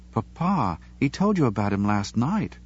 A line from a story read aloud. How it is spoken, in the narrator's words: Claudia reminded him sweetly